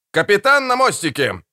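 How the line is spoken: Shouted, officer on watch. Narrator (Russian): выкрикнул вахтенный офицер

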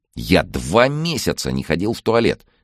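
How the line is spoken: Indignant complaining. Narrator (Russian): возмущенно жаловался Андрей

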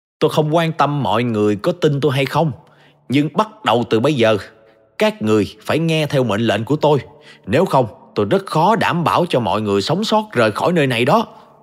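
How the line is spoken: Shouting to a crowd. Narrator (Vietnamese): Tôi hét lên với tất cả những người đang có mặt

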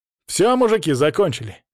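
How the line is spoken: Barked. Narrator (Russian): рявкнул Паша

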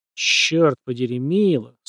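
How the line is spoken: Strained. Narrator (Russian): с трудом выдавил Парки

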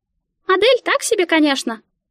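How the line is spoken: Squeaky voice. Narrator (Russian): пропищала Мика

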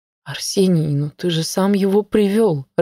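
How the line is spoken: Flustered babbling. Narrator (Russian): растерянно залепетала Маша

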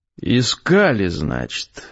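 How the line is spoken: Very calm question. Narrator (Russian): очень спокойно спросил Гессер

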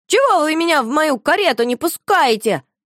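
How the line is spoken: Scream at full force. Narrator (Russian): закричала Шуша, что есть мочи

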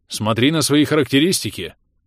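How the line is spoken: Curt, clipped. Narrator (Russian): отрывисто бросил Енисей

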